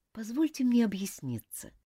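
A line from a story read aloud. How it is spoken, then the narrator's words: Quiet remark. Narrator (Russian): тихо заметила миссис Таунсенд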